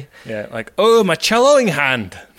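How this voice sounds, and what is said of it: Rough put-on Scottish accent. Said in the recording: “That's kind of a Scottish accent. I don't know what I'm doing.”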